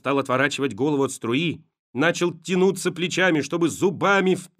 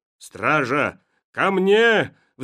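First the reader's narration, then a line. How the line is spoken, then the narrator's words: Roar cut off, choking. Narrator (Russian): взревел император, но захлебнулся мочой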